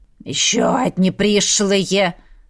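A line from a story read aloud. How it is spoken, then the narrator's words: Crowd grumbling. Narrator (Russian): заворчали вокруг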